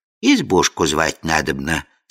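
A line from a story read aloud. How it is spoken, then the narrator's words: Completely calm. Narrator (Russian): совершенно спокойно отозвалась Яга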